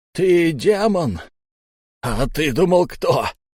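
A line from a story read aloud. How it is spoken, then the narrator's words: Maniacal laughter. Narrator (Russian): безумно расхохотался Мо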